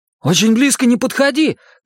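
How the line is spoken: Shouted. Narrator (Russian): крикнул Стэн

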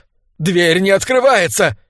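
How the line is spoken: Frightened shout. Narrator (Russian): испуганно выкрикнул он

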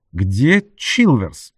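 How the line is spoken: Stern question. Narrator (Russian): строго спросила она

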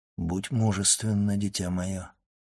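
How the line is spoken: Gentle yet commanding. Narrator (Russian): Монте-Кристо сказал ласково, но все же с повелительной ноткой в голосе

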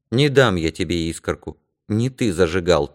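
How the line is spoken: Quiet. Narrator (Russian): тихо сказал я

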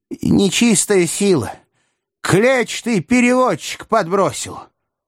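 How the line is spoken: Indignant roaring crowd. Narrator (Russian): негодующе взревел зал

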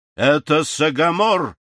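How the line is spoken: Sudden cry. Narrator (Russian): скрикнул соколиный глаз

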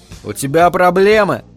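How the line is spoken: Rude question. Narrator (Russian): грубо поинтересовался я

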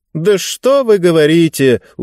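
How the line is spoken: Smirking. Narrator (Russian): усмехнулась женщина

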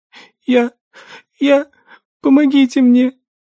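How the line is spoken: Sobbing. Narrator (Russian): Донеслось сквозь всхлипывание

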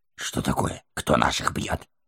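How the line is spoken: Muttered. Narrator (Russian): пробормотал

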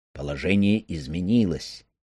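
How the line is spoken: Quiet conspiratorial voice. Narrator (Russian): тихо, как заговорщик, говорит он

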